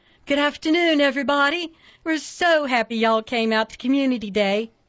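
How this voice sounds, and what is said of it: Sugary Southern accent. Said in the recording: “she said in a sugary southern accent”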